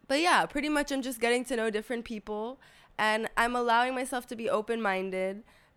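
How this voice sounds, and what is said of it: Slightly odd, sick-sounding voice. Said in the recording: “if you hear my voice, I may or may not have COVID ... my voice sounds a little bit weird”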